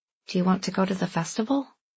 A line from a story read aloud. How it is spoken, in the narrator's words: Andy asked hesitantly